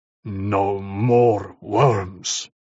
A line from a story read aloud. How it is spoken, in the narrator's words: he growled